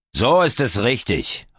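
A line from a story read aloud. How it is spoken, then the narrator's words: Calling out. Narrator (German): ruft Walter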